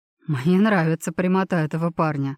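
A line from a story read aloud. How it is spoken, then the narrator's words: Chuckling. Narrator (Russian): хохотнул Жан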